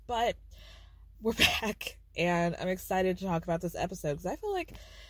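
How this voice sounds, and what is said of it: Voice sounds a bit unwell. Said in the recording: “I was not feeling too hot earlier this week. Still on the mend a bit, so you can probably hear it in my voice.”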